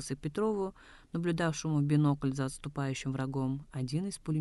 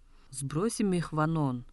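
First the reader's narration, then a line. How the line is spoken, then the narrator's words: Cheerful exclamation. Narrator (Russian): воскликнул Намашо Циден, потный и веселый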